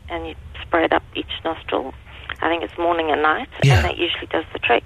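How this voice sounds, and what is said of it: Zimbabwean accent. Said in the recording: “Where is your accent from? ... Zimbabwe.”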